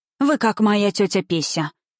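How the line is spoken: Sighing. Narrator (Russian): вздохнула Зоя Савишна

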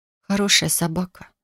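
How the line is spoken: Unenthusiastic mutter. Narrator (Russian): пробормотала без должного восхищения

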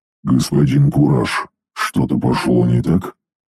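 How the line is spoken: Droning machine voice. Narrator (Russian): Прогудела машина

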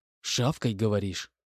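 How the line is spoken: Quiet hiss. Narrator (Russian): негромко прошипел майор

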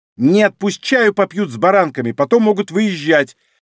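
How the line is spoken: Snapping young woman. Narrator (Russian): Огрызнулась девушка

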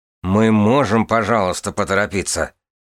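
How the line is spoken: Through gritted teeth. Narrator (Russian): процедил Турвишар

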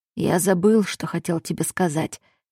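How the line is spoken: Husky voice. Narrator (Russian): послышался хрипловатый голос

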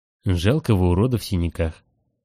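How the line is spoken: Gloomy reply. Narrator (Russian): отозвался мрачно

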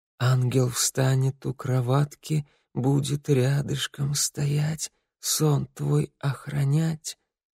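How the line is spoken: Sad, halting whisper, mother. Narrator (Russian): мама, печально улыбнувшись, сбивчиво зашептала

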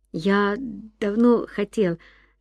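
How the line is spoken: Stammering. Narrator (Russian): запинаясь, проговорил Ян

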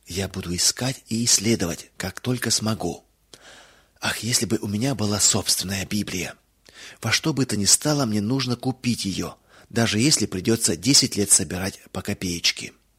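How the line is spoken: Whispered. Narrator (Russian): Мэри прошептала

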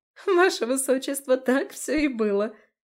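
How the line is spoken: Court lady laughing heartily. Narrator (Russian): заливалась хохотом придворная дама

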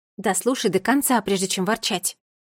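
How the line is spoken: Angry. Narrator (Russian): сердито сказала я

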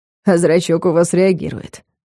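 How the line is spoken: Smirking. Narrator (Russian): хмыкнул он

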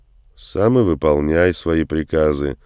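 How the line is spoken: Gloomy mutter. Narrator (Russian): мрачно буркнул в ответ Андрей

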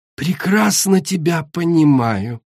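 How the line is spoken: Cooing. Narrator (Russian): проворковала Ожог

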